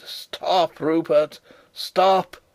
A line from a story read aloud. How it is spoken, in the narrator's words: I cried